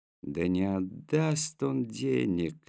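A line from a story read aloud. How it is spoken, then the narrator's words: Lazy muttering through teeth. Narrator (Russian): лениво процедил один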